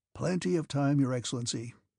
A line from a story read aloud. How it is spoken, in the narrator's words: muttered Kutuzov in the midst of a yawn